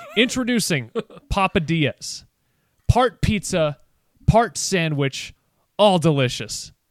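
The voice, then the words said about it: Impression of a TV commercial announcer. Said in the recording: “I'm going to do an impression of the commercial telling you what a Papadilla is”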